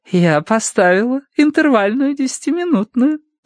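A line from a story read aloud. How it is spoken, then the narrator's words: Cooing. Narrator (Russian): проворковал Уордер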